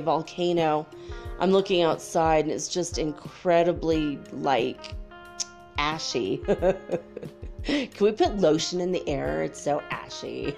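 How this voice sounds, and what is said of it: Slightly harsh voice. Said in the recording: “my voice is a little harsh today”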